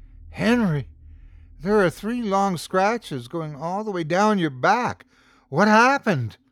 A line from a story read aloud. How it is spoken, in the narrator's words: gasped